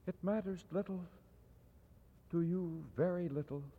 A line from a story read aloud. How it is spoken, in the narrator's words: she said softly